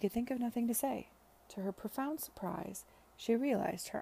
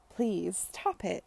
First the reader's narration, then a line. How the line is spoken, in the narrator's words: she cried